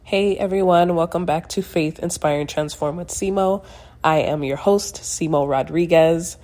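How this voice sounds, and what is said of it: Congested, slightly altered voice. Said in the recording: “My voice sounds a little funny right now. ... I had some congestion ... That's why it sounds a little bit different”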